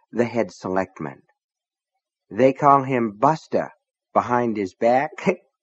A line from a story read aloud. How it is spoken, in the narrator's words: Nettie said, and giggled